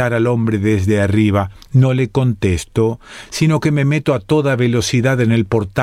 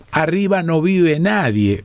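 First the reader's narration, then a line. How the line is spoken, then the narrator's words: Shouting. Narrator (Spanish): grita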